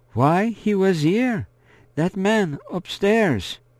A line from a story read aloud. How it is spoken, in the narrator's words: Marie-Laure asks in a gentle voice